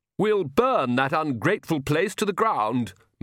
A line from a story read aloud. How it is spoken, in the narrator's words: moaned the Countess